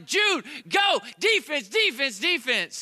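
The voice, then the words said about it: Yelling. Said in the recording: “I'm yelling”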